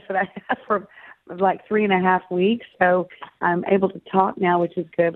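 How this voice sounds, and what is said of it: Crackly, hoarse recovering voice. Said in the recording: “apologize for my voice because it's still recovering from laryngitis ... it sounds sort of a little bit crackly”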